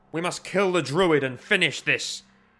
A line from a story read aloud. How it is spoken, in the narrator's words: cried Maelstrom